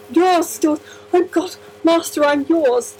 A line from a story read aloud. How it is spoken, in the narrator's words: the doctor gasped deliriously